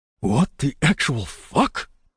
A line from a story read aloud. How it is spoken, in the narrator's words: I hissed at the cat